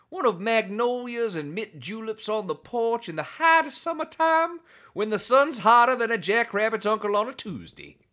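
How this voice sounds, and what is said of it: Put-on accent. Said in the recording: “Stop doing the accent.”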